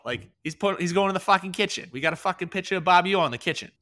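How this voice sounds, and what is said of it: Put-on Massachusetts accent. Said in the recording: “That's my masshole accent. Had to turn that on for a little bit here”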